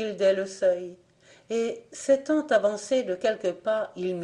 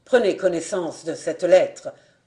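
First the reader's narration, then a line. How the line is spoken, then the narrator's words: Harsh tone. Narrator (French): prononça-t-il d'un ton dur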